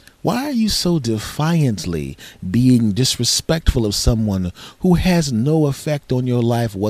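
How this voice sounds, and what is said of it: Usual voice. Nothing is said of it.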